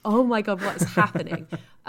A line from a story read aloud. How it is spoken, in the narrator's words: laughing